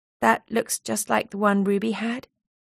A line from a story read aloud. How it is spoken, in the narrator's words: said quietly